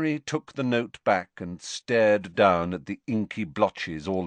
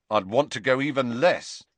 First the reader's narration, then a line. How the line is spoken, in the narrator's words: said Ron firmly